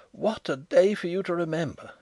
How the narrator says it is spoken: he cried

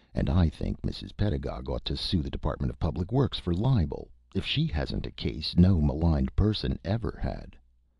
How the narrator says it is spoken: said the idiot calmly

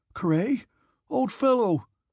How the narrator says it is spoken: wailed Nicholas

